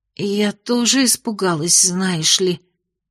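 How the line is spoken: Hoarse mumble after screaming. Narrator (Russian): охрипшим после криков голосом пробормотала

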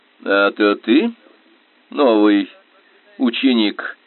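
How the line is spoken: Sarcastic question. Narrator (Russian): язвительно поинтересовался он

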